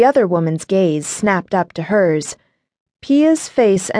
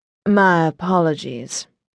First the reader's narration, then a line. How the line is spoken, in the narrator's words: she said in her chocolate milk voice